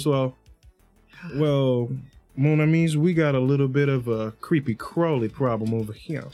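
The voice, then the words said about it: Really calm voice. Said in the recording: “saying in a really calm voice”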